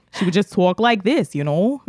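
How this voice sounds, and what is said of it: Put-on New York accent. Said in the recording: “That was my New York accent.”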